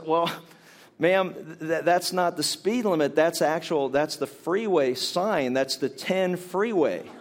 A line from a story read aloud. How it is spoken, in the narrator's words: starts to chuckle to himself, and he says